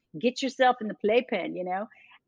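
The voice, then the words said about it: Poor attempt at English accent. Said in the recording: “that was not an English accent, by the way. You didn't do a good job with that. ... I've never been able to get Jill's accent.”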